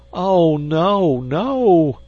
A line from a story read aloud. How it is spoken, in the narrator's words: cried the agonized insect